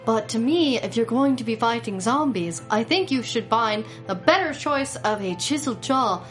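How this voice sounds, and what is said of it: Deliberately bad British accent. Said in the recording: “a really bad British accent and talk like this”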